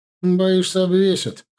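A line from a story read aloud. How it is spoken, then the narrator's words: Snorting scoff. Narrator (Russian): хмыкнул Фима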